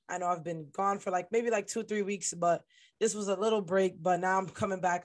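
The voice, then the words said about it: Hoarse, weak, strained voice. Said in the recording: “Excuse my voice. I know it sounds really bad, but it's healing right now ... bear with me if my voice fades out”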